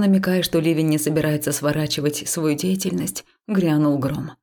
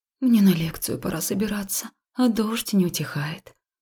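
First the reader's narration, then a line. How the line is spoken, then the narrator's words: Gloomy whisper. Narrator (Russian): уныло прошептала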